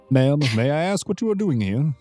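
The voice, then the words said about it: Character voice with a different accent. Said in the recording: “What happened to your accent? ... Different accent, different character.”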